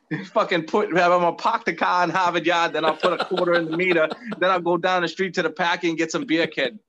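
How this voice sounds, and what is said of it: Put-on Boston accent. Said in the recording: “my Boston accent guy”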